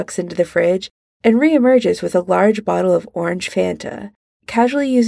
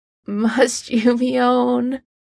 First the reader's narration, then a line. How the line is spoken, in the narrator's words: Harry groans